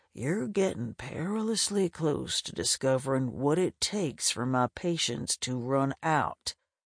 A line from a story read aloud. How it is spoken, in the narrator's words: Gray threatened under his breath